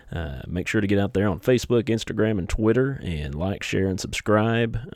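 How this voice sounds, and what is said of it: Rural Southern hick accent. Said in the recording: “smooth-sounding goodness of my hick accent”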